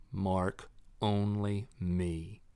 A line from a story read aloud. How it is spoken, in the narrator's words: Ivan said